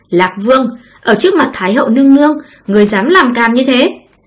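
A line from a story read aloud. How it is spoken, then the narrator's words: Sharp rebuke. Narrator (Vietnamese): hoàng hậu quát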